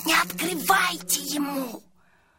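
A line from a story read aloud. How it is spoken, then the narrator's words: Hissing. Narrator (Russian): Сашка зашипел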